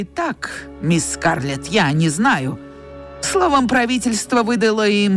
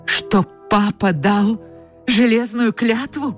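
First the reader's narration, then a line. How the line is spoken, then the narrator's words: Exclaiming. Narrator (Russian): воскликнула Скарлетт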